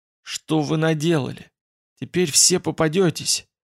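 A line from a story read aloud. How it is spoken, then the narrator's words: Grumbling mutter. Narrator (Russian): Фицрой буркнул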